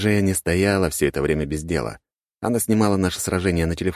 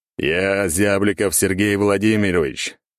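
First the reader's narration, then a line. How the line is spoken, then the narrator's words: Loud, performing for camera. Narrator (Russian): громко заговорил я, работая на камеру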